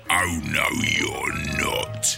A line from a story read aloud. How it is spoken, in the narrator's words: he hissed